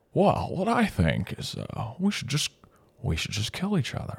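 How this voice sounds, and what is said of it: Jimmy Stewart impression. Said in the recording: “Jimmy Stewart, and I'm ready for your accent.”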